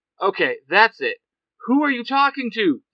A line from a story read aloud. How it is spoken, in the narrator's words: shouts